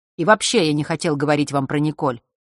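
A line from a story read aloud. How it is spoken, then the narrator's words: Irritated. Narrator (Russian): раздраженно добавил он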